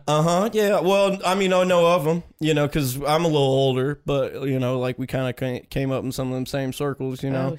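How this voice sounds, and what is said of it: Put-on Southern accent. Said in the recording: “He didn't have the Southern accent when he first ... I think he's just, like, kind of a character.”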